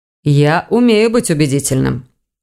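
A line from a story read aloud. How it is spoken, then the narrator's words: Dry. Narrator (Russian): сухо проговорил Эверетт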